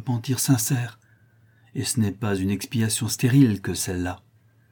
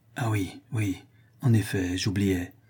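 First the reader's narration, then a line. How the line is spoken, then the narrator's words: Muffled low voice. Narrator (French): dit Jacques Ferrand d'une voix sourde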